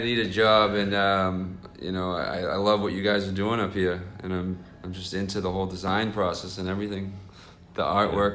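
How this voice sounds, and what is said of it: Boston accent. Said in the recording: “you're definitely from around Boston with that accent”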